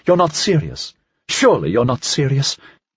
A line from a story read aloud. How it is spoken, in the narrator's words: Beaudry answered sharply